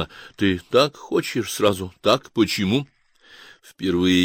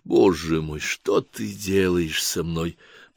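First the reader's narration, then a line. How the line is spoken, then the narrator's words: Whispered. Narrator (Russian): прошептала она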